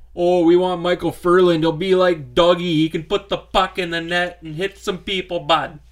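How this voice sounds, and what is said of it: Exaggerated Canadian hoser accent. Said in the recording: “That's an interesting accent. ... That's my hoser accent.”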